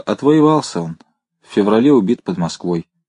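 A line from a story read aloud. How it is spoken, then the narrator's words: Calm. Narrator (Russian): Женщина спокойно проговорила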